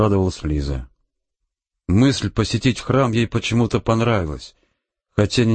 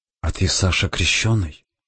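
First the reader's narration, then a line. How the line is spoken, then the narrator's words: Whispered question. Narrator (Russian): Лиза шепотом спросила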